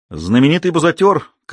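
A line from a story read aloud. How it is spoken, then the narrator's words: Shouted. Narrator (Russian): крикнул он Айку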